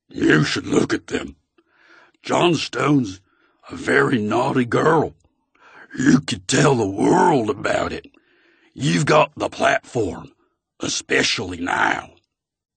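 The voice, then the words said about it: Very deep Texas-accented voice. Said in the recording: “This was a new voice, impossibly deep, like a cartoon bullfrog. It had a Texas accent.”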